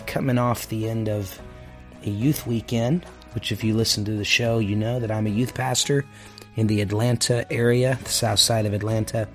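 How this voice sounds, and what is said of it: Tired-sounding voice. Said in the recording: “My voice is a little bit tired today.”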